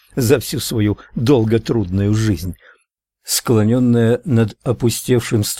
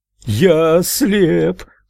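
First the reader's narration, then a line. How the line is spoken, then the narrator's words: Loud shrill scream. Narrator (Russian): громким пронзительным голосом завопил мужчина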